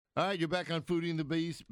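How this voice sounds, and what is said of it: Put-on Southern accent. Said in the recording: “That's my southern accent.”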